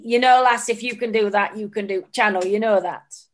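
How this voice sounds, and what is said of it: Imitated northern English accent. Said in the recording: “in his northern accent”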